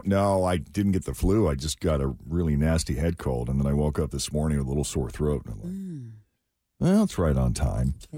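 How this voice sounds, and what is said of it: Groggy, nasal, chesty voice. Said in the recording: “Sound a bit groggy or like, you know, nasally... raspy?... Chesty. You sound a bit chesty.”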